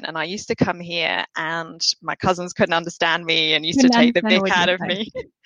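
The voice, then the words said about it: Southern English accent. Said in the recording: “the south coast of England, where this accent all came from”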